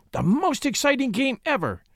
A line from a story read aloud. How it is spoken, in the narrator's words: gasped Mink, pink-faced